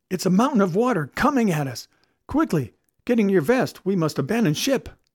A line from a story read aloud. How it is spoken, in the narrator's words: Suddenly he cried out